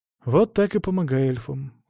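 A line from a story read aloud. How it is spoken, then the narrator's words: Sigh. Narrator (Russian): вздохнул я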